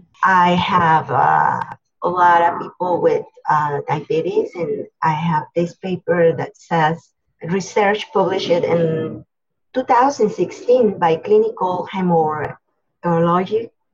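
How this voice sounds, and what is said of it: Speaks with a non-native accent. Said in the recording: “I'm sorry for my accent,”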